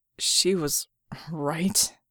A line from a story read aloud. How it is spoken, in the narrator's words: Red croaked